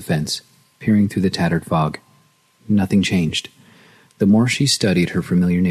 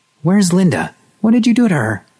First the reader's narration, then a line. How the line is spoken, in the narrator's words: shouted the brave words